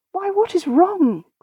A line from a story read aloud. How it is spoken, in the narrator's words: cried Tabaret, when she returned and saw how much poor Ursula had changed